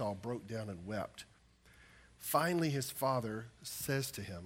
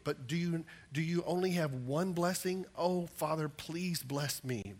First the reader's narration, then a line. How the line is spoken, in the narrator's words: Esau pleaded